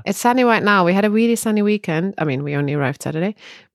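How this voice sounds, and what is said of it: Voice sounds bad, unwell. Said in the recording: “You hear my voice? My voice is still bad.”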